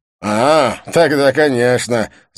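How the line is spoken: Guffawing. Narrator (Russian): захохотал он

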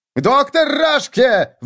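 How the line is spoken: Panicked howl. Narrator (Russian): взвыл на грани паники Виссен

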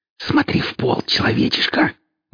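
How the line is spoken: Hissed into ear. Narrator (Russian): Зашипел ему в ухо один из темных

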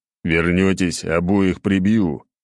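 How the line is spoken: Grumble. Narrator (Russian): проворчал Сергей

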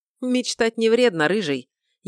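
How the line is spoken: Snide retort. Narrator (Russian): ехидно отпарировал я

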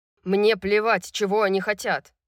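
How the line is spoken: Shouting into phone. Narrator (Russian): кричал в телефон Тарион

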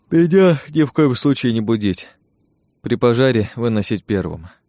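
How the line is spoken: Sleepy voice. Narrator (Russian): сонным голосом произнес я

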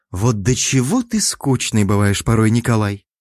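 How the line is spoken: Disappointed sigh. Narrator (Russian): Разочарованно вздохнула Шелена

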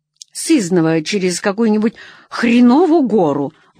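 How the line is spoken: Grumbled. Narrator (Russian): буркнула Нелли

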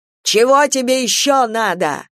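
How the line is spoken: Shout. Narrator (Russian): закричал

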